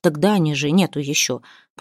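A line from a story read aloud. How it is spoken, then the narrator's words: Somewhat calmed mutter. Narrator (Russian): пробормотал Ярдар, несколько успокоенный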